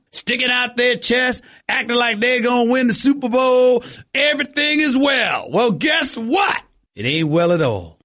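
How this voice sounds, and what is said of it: Exaggerated Southern cowboy drawl. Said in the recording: “with my regular cowboy accent all over the place ... laughing at my southern drawl”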